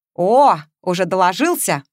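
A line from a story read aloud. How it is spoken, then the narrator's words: Snort. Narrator (Russian): хмыкнул Матвеев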